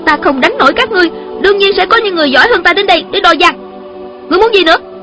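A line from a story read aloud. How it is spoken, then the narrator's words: Angry young woman. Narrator (Vietnamese): Thiếu nữ giận dữ nói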